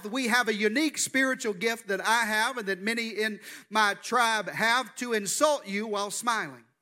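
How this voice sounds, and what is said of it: Southern US accent. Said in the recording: “I'm from the deep South. I'm from Arkansas. That's where this good accent comes from.”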